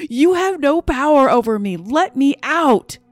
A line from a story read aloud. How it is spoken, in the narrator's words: screamed at the top of my lungs